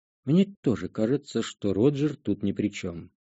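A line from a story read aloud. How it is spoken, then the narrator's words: Quiet addition. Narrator (Russian): добавил негромко Джи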